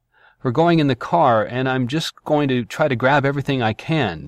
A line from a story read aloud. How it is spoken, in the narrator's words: narrated, her voice tense